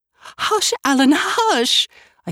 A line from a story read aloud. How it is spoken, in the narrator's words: I cried hysterically